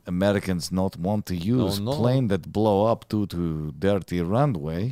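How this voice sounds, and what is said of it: Put-on Russian accent, drifting Middle Eastern. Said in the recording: “Now it's just going to turn into a Middle Eastern accent... We got to get Russian again.”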